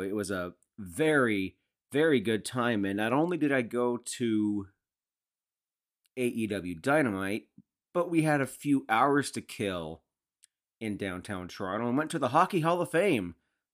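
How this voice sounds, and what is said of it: Hoarse, strained voice. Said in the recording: “my voice is still effed from all of the shouting and chanting”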